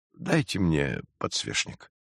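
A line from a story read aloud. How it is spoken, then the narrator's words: Soft. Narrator (Russian): мягко произнес Войнич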